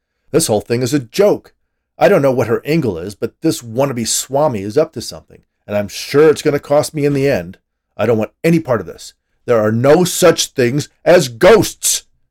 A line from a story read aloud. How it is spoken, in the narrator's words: he screamed at the top of his lungs